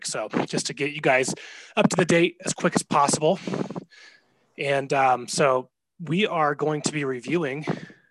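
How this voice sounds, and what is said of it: Out of breath, winded speech. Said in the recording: “I'm out of breath. ... going down the stairs”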